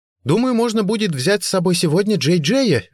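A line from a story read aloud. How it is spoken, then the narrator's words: Cheerful, ringing voice. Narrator (Russian): весело и звонко проговорила Бренда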